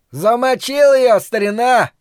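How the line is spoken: Yelled. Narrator (Russian): завопил Тычок

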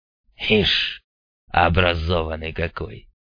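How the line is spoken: Grumbled. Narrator (Russian): проворчал Мун

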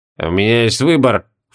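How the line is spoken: Low grumble. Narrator (Russian): вполголоса проворчал адъютант

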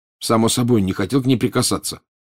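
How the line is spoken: Angry. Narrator (Russian): сердито сказал Гарри

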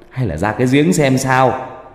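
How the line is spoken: Sudden shout. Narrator (Vietnamese): Bỗng một bác hét lên

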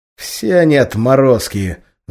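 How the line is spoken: Angry. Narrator (Russian): злобно ответил Ферзь

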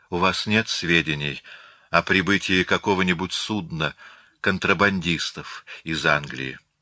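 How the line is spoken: Heavy sigh, question. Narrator (Russian): Она тяжело вздохнула и спросила

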